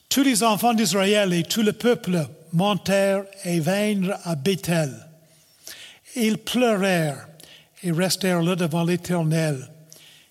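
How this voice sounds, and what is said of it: Speaker's own regional French accent. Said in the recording (French): “je vais prendre le temps de le lire avec mon accent. Vous pouvez écouter puis rire si vous voulez.”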